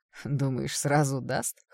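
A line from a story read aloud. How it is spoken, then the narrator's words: Chuckle, young man. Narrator (Russian): хохотнул кто-то из парней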